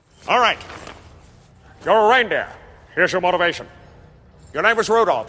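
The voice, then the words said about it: Ron Howard impression. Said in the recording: “Jim Carrey doing his Ron Howard impression”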